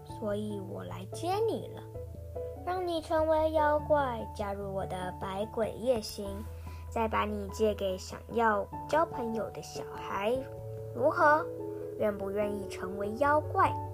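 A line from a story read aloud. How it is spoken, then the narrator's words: Gentle, comforting. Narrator (Chinese): 妖怪出租者温柔地安慰他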